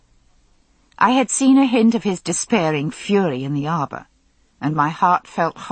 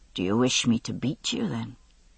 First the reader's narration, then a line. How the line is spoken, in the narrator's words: he said softly